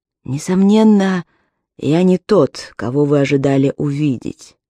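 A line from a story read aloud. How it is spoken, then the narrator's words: Continued with a sigh. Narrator (Russian): продолжил человек на постели и вздохнул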